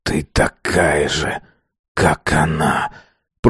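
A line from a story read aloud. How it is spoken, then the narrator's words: Hiss rising to loud. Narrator (Russian): Прошипел Азар, постепенно повышая голос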